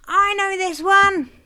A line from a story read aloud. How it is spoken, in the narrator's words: shrieked Mum, delighted at being able to get one at last